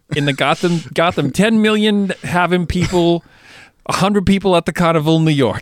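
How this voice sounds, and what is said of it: Put-on New York-like regional accent. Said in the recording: “Why don't you actually have that accent? ... it's a little bit more like New York, but it's a bit more like it gets pointy”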